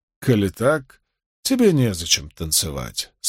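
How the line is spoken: Calm. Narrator (Russian): спокойно сказал Перин

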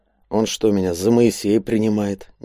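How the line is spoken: Displeased grumble. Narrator (Russian): недовольно буркнул Андрей

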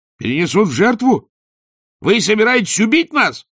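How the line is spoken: Terrified wail. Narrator (Russian): завопил волшебник

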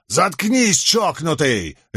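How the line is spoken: Angry bark. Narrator (Russian): рявкнул Милфорд

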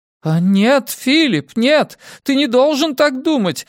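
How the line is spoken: Woman shouting. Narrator (Russian): закричала мисс де Хэвиленд

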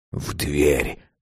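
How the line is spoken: Whisper. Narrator (Russian): шепнул он

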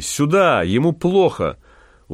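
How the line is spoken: Shouting in Russian. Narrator (Russian): Максим закричал по-русски

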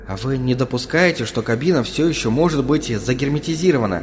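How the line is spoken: Soft, oddly echoing. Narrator (Russian): мягко заметил он, неприятно поежившись от странного эха собственного голоса

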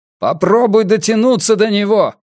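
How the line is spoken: Shouted. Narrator (Russian): крикнул Йона

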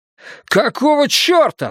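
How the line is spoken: Shouted. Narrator (Russian): закричал Томас

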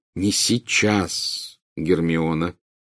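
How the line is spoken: Grim, meaningful tone. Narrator (Russian): мрачным и многозначительным тоном произнес Гарри

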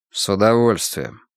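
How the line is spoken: Gloomy. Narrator (Russian): мрачно ответил Стив

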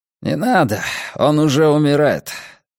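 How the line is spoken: Sighing. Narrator (Russian): Оша вздохнул

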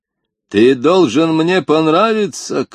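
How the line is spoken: Chief's shout. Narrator (Russian): крикнул вождь

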